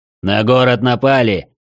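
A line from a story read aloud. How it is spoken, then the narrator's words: Barking shout. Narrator (Russian): рявкнул Балиан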